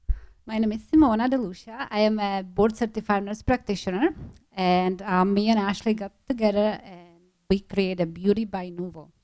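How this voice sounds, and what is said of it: Czech accent. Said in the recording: “You have a really great accent. ... I'm originally from the Czech Republic.”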